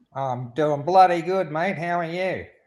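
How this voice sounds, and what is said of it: Strong Australian or New Zealand accent. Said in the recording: “That's not an accentuated accent at all, is it? ... it's a New Zealand accent.”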